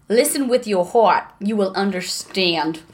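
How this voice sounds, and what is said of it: Put-on New York American accent. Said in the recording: “Is it American? ... Is it New York? ... Yes!”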